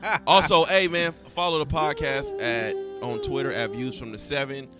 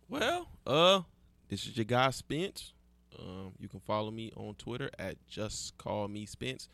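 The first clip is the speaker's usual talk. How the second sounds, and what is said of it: Put-on sexy voice. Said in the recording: “I had to hit y'all with my sexy voice just one time.”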